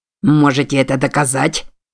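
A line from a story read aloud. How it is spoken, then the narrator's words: Sharp, curt. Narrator (Russian): резко бросил Фолиуэлл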